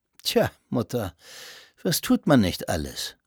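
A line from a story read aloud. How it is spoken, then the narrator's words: Dry. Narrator (German): bemerkte er trocken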